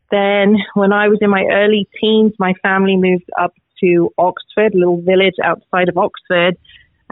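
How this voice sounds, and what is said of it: English accent. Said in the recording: “it sounds like you might have an accent ... I am originally from England, grew up in London”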